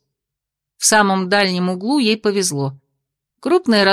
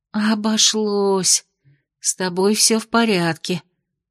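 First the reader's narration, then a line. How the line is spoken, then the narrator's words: Incoherent mumbling, young woman. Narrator (Russian): бессвязно бормотала девушка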